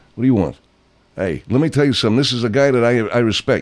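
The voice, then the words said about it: Put-on New York accent. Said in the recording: “the New York accent”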